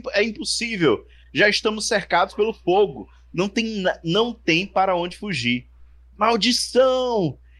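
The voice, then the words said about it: Shouting character voice. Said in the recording (Portuguese): “alguém tá gritando”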